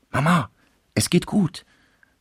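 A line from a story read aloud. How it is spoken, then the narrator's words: Whispered into ear. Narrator (German): flüsterte sie der Mutter ins Ohr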